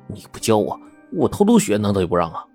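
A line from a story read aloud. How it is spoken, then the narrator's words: Silent inner grumble. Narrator (Chinese): 阿狗心里在嘀咕着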